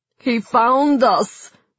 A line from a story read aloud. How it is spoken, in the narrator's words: moaned Sergei, his voice ragged with fear